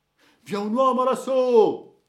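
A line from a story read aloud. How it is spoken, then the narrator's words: Vanguard men shouting. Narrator (Italian): si udirono gli uomini d'avanguardia a gridare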